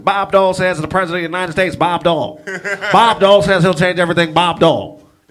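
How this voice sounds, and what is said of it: Bob Dole impression. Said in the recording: “do a Bob Dole impression.”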